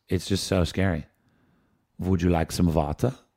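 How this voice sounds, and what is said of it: Bad put-on German accent. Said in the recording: “is that a German accent? ... Like German and Austrian. Kind of. ... I've done a bad accent”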